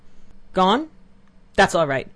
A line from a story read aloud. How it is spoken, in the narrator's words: said he, and looking angrily